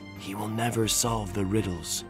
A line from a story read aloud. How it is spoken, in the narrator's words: I could hear them whisper